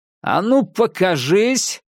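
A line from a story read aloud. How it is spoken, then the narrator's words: Shouting into darkness. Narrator (Russian): крикнул я в темноту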